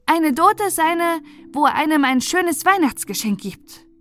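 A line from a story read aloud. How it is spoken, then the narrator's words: Hearty call across. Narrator (German): rief Christoph herzhaft herüber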